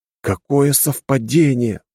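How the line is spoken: Exclaiming. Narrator (Russian): воскликнул

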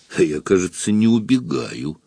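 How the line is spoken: Through clenched teeth. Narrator (Russian): процедил Зуров

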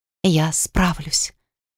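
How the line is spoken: Whispered. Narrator (Russian): прошептала я в темноту

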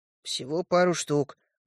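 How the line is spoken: Downcast mumble. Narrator (Russian): буркнул я, опустив голову

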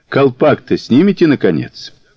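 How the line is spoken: Calm question. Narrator (Russian): Мазур спокойно спросил

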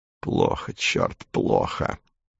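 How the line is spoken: Mumbling. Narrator (Russian): пробормотал Ремайер

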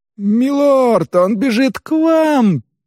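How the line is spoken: Panicked squeak. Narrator (Russian): панически запищал Тхакун

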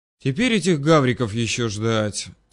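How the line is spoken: Heavy sigh. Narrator (Russian): Тяжело вздохнул Гриша

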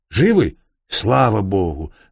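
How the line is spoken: Shouting from behind. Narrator (Russian): закричал он сзади

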